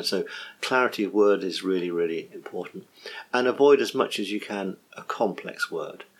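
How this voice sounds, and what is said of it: English accent. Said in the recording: “I'm English, so some Americans might find my accent hard to find.”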